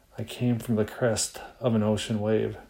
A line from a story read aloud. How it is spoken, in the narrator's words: The breeze smiled, swirled around my face, and whispered